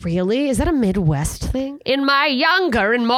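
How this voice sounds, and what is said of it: Usual voice. Nothing is said of it.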